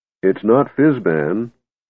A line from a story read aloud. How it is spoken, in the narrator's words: Tass said miserably